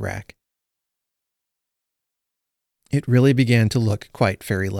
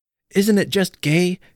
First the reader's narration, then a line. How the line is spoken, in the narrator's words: cried Phil